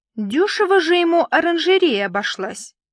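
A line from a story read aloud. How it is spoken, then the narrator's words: Slightly irritated remark. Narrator (Russian): слегка раздраженно отметила Капстынь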